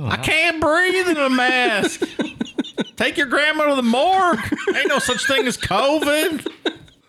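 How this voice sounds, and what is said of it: Put-on Southern US accent. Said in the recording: “In that accent, or like in the southern thing about COVID”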